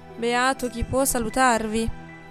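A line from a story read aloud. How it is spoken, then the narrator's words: Young man sighing. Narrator (Italian): sospirò il giovinotto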